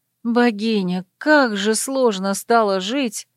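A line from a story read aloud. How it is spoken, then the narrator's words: Sighing. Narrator (Russian): вздохнула она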